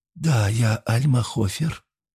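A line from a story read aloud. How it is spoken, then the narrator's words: Slightly hoarse, weak voice. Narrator (Russian): чуть хриплым слабым голосом ответила женщина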